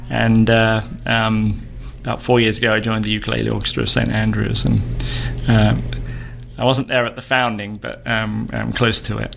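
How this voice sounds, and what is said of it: English accent. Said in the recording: “you're not from the South... I'm from England... I try and keep the English accent.”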